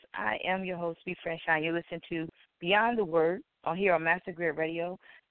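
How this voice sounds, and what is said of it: Slightly hoarse voice. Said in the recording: “I a little hoarse today”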